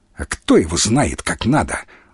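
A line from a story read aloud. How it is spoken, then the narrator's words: Angry curt remark. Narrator (Russian): Зло бросил Бунич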